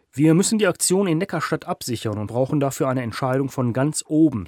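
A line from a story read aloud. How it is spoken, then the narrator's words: Plain. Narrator (German): sagte Hüschen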